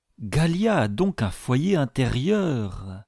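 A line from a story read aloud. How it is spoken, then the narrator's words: Exclaimed. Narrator (French): s'écria le capitaine Servadac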